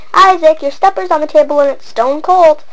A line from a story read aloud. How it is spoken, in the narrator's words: his mother shouted again